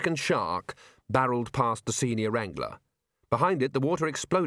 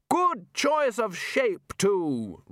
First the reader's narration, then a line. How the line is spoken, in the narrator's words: Ridcully continued loudly